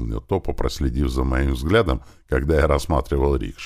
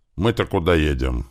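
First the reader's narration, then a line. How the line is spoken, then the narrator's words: Muttering from behind. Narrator (Russian): пробурчал сзади Туман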